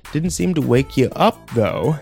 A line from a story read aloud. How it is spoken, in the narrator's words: he laughed